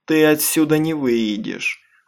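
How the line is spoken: Cold. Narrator (Russian): холодно ответила Крисси

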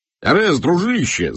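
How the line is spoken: Yelling. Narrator (Russian): завопил

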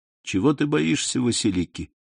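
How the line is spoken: Soft, tender yet proud. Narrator (Russian): ответил Селим мягко, ласково и в то же время гордо

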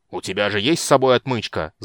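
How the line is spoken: Growled. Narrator (Russian): зарычал Флинт

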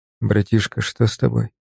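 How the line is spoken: Quiet question. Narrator (Russian): спросил я тихо

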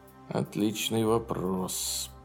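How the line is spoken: Mutter. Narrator (Russian): пробормотал Тайсман

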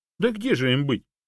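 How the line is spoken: Laughing. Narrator (Russian): рассмеялась обезьяна

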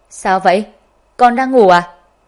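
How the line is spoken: Loud. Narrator (Vietnamese): Ngô Hạ Ngự lớn tiếng

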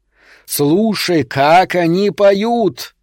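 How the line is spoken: Roared. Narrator (Russian): взревел принц Вулкан

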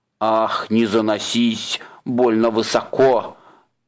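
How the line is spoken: Angry hiss. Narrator (Russian): Сердито прошипел тролль

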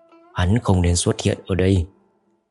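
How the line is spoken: Uneasy muttering. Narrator (Vietnamese): sắc mặt khẽ biến lẩm bẩm

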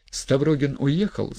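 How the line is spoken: Plain question. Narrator (Russian): спросил Кириллов

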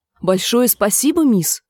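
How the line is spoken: Strained, forced words. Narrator (Russian): выдавил Нат

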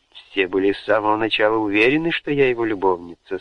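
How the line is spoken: Plain. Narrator (Russian): сказала она

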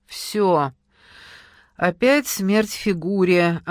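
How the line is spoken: Resigned sigh. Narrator (Russian): обреченно вздохнула Кира

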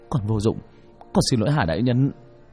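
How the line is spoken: Trembling, fearful. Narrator (Vietnamese): Nguyễn Hải run run

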